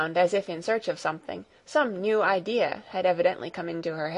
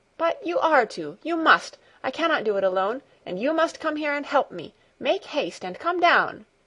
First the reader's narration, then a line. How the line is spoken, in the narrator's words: she called again, in an urgent voice